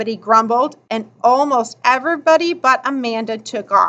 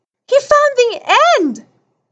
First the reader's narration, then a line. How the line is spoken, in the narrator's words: somebody gasped